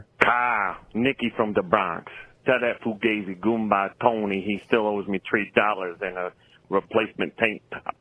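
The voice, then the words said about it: Bronx New York accent. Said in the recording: “from the Bronx ... what a stupid fucking accent we talk with”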